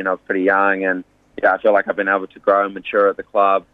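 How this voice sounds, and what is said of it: Slight English accent. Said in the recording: “the English accent ... a little English twang. I know it comes and goes”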